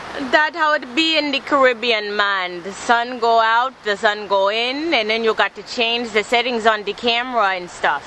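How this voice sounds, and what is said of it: Poor put-on Caribbean accent. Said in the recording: “my terrible Caribbean accent”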